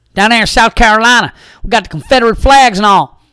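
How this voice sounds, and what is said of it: Put-on accent. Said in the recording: “I'm just still in this stupid accent mode”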